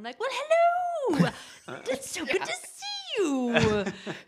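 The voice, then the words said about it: Affected theatrical actor voice. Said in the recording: “there's a theater person accent”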